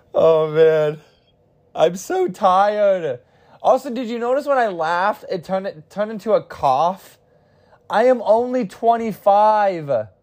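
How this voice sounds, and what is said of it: Tired, fading voice. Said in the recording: “I'm losing my voice. I sound like Seinfeld.”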